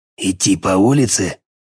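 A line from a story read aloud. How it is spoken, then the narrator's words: Quiet hissing insinuating singer. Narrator (Russian): тихо, шипящими вкрадчивыми нотками ответил поющий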